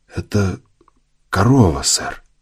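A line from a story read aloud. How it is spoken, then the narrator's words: Barely audible breath. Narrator (Russian): едва слышно выдохнул Мейсон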